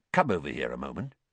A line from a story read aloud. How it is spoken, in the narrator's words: Weasley quietly